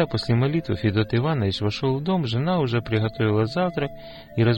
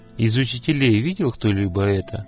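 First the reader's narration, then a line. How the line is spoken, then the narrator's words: Plain. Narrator (Russian): спросил отец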